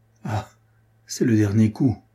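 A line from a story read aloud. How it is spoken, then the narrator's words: Murmur. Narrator (French): murmura-t-il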